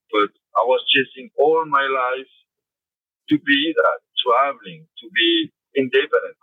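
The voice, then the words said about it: Foreign accent, hard to understand. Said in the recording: “my accent, sorry ... I know my accent can be hard”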